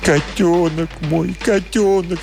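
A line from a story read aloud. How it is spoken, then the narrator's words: Sobbing. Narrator (Russian): всхлипывал он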